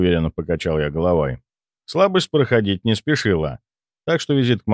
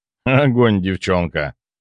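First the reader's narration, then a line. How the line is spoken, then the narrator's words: Snort. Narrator (Russian): хмыкнул наставник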